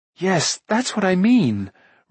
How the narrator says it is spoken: Rune said eagerly

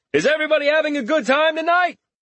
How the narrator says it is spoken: Richter shouted

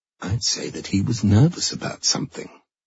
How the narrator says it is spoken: Fraser muttered

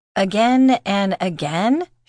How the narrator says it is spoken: she giggled

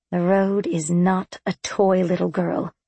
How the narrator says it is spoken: she said, in a patiently withering tone

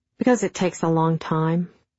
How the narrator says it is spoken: I answered

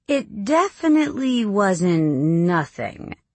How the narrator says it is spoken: Beth says slowly

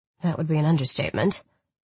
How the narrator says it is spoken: I muttered

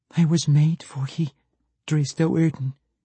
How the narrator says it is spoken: Catti Bree said between sobs

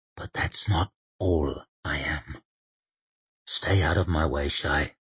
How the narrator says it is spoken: she heard him whisper in her ear

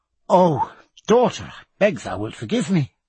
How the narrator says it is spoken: cried Diana

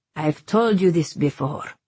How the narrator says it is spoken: Habim said gruffly

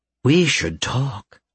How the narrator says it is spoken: Mother said in her normal, sultry tone

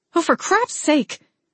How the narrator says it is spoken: I blurted out

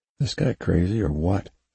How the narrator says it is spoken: Griffin whispered

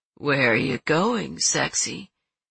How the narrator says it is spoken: Ted said in a sleepy, dopey voice

